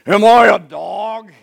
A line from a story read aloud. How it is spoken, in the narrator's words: he roared at David